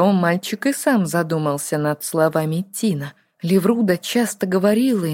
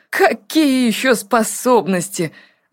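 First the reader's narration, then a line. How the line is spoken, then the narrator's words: Laughing. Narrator (Russian): отмахнувшись, засмеялся Артур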